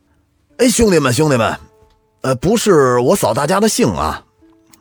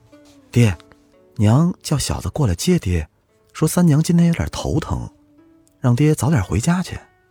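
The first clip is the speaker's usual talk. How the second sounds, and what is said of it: Quiet, hushed speech. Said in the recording (Chinese): “伏在西门庆的耳边小声地说”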